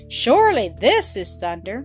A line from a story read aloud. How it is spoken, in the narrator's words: It was louder than that made by the hoofs of the horses, and the goat cried